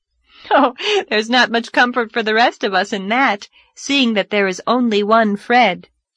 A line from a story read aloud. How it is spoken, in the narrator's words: laughed Anne